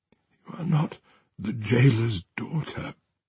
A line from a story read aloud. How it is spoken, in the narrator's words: she sighed